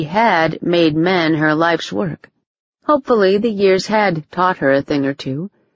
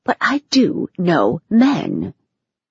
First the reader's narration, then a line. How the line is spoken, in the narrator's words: she whispered